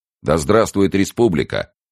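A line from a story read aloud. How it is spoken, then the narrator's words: Shout. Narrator (Russian): кто-то крикнул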